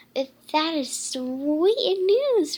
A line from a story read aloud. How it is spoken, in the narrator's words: Raina exclaimed